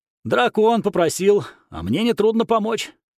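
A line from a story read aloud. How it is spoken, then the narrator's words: Amused snort. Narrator (Russian): хмыкнул Зен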